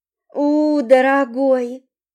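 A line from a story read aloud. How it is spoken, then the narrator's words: Moaned. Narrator (Russian): Простонала я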